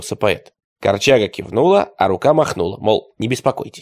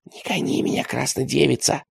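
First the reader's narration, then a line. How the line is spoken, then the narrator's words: Whisper turning to tears. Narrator (Russian): прошептал он и заплакал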